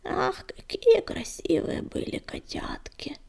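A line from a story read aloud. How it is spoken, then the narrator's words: Absent-minded old woman mumbling. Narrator (Russian): рассеянно забормотала старуха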